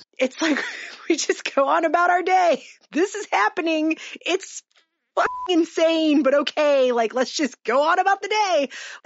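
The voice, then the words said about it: Strained half-laughing, near-tears voice. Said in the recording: “you can hear in my voice. It's that laugh or you'll cry voice that I'm doing”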